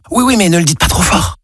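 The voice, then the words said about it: Whispering. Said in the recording (French): “pourquoi chuchotez-vous?”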